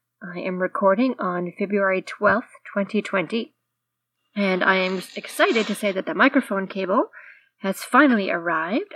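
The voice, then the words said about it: Congested voice from a head cold. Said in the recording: “apologies for the head cold. You can probably hear that in my voice”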